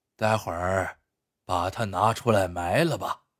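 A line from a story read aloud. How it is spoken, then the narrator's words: Heavy sigh. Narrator (Chinese): 毛二爷长叹一声，说道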